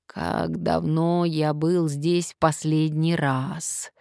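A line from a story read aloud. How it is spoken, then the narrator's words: Sigh. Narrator (Russian): вздохнул он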